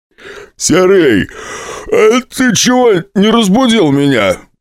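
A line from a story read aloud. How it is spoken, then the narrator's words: Grumbling. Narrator (Russian): ворчал Лоскутов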